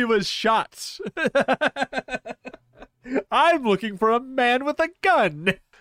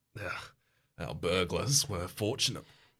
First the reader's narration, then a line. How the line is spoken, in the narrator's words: he mutters